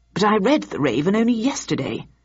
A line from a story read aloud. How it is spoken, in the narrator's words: added Victor in a confused tone